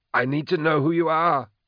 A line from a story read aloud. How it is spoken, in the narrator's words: Moloch said, more urgently